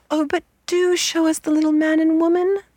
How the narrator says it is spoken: they cried

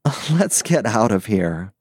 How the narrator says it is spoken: said Tinny Pete, still chuckling

